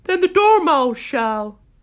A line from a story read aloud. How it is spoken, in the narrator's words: the March Hare cried